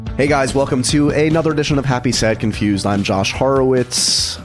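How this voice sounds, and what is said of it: Deeper, congested voice. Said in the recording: “If I sound like I have more gravitas this week, it's only because I have a cold”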